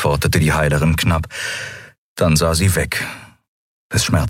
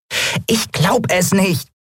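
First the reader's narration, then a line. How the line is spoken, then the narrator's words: Squeaky voice. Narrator (German): piepste Nelen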